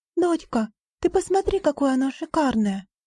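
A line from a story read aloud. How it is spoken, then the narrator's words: Exclaiming. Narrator (Russian): воскликнула она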